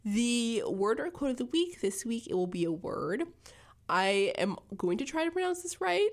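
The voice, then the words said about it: Scratchy voice. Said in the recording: “apologize for my voice. I know it is a little bit scratchy, but I am recovering from my cold”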